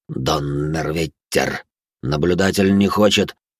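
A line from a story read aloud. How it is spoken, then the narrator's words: Mutter. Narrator (Russian): пробормотав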